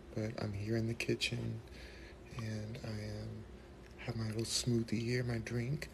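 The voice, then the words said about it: Whispering. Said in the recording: “I'm whispering again because my family's still sleeping”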